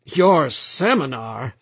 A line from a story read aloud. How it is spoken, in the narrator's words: Lomax laughed curtly